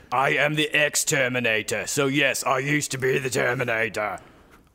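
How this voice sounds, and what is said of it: Terminator-like voice with Australian accent. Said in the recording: “this sounds sort of like an Australian Terminator to me too ... He might be from New Zealand.”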